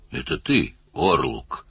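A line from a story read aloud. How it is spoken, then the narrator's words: Wooden flat voice. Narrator (Russian): деревянным голосом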